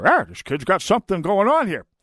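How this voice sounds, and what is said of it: Poor impression of another person's voice. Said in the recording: “I know it's a terrible Bernie Sanders impression.”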